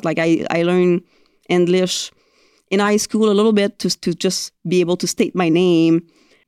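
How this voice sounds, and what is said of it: Thick non-native English accent. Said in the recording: “you still have such a thick accent”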